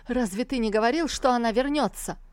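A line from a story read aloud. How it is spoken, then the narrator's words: Furious shout. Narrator (Russian): Тантайцзинь в бешенстве выкрикнул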